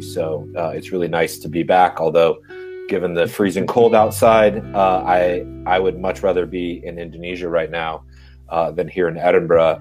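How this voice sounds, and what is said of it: American Southern California accent. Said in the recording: “If you can tell from my accent, I'm an American, and in fact from Southern California”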